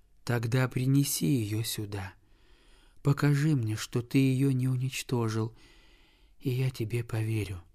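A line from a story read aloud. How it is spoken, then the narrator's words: Weak exhausted whisper. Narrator (Russian): прошептал больной, такой слабый и истомленный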